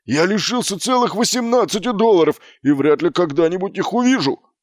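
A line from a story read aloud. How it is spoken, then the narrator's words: Barked. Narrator (Russian): рявкнул он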